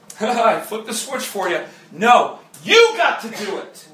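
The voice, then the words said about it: Raised, passionate voice. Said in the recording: “I'm raising my voice. I'm not mad. I just get passionate.”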